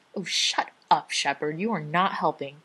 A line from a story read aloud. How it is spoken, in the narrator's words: Rodney snarls